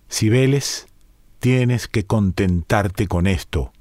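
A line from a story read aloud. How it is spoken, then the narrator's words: Plain. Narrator (Spanish): le dijo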